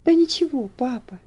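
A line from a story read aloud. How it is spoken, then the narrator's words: Gentle, affectionate speech. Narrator (Russian): ласково сказала Элси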